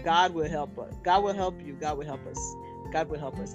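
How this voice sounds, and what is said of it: Put-on Nigerian accent. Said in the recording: “I'm saying it with a Nigerian accent”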